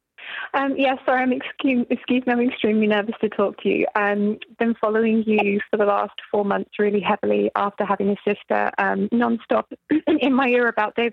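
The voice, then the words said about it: British accent. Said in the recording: “accent as cool as yours ... is it British or Australian? ... It's British.”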